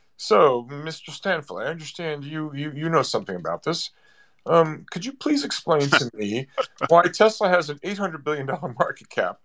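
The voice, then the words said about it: Imitates another person's voice. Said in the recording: “I'm going to be Jeremy Irons in margin call ... It's a very good impression.”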